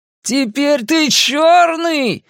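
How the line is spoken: Jubilant shouting. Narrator (Russian): ликующе кричал Генри

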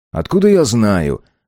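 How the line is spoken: Irritated. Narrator (Russian): раздраженно ответил он

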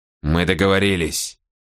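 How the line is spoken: Mumbled. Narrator (Russian): пробормотал Мора

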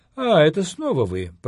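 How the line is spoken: Indifferent voice. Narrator (Russian): произнес он безразличным голосом

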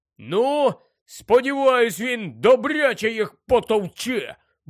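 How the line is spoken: Grumbling mutter. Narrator (Ukrainian): буркнув Рон

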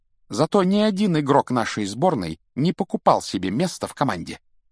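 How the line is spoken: Clipped, emphatic. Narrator (Russian): отчеканила Гермиона

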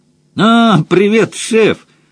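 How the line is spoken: Joyful shout. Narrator (Russian): радостно выкрикнул Мадж

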